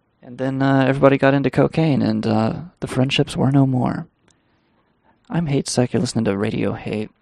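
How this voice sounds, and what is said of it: Worn-out, strained voice. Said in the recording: “It's been 3 solid fucking hours, and we're done. My voice is done.”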